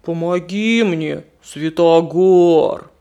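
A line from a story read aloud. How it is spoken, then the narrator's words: Bear roaring. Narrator (Russian): проревел медведь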